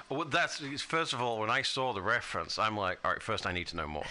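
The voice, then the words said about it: British accent. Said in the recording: “Really am British ... Accent's the accent's real”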